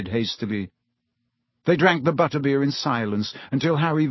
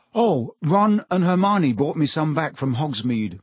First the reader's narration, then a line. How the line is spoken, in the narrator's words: Harry lied quickly